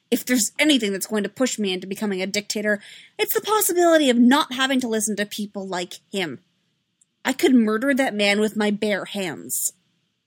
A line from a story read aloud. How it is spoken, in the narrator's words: The moment the hologram blinked out, she pounded her fist into the arm of her throne and snapped